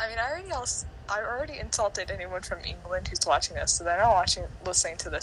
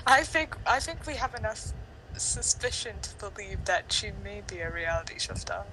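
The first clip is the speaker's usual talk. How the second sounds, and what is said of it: Failed attempt at English accent. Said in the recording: “saying that in an English accent ... It sounded like a failed English accent ... I was just like saying in a cool way”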